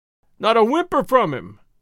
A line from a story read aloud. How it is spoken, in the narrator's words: cried the dealer in hides and tallow